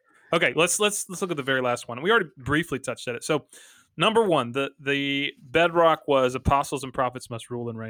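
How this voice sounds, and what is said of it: Southern US Georgia accent. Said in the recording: “That's my Georgia accent.”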